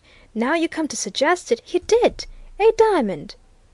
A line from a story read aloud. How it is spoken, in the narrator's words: he exclaimed